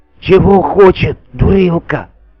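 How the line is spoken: Loud whisper. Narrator (Russian): шепотом крикнул горох

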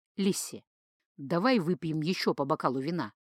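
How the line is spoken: Whispered in ear. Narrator (Russian): шепнул Джейка на ушко подруги

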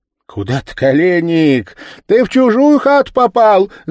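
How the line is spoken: Girls shouting, laughing. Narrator (Russian): закричали, смеясь позади его девушки

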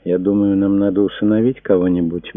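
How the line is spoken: Soft. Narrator (Russian): мягко сказала она

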